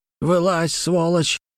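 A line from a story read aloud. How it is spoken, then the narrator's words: Hoarse wheeze. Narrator (Russian): хрипел Сосновский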